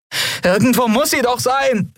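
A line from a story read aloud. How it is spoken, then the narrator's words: Female call. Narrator (German): rief sie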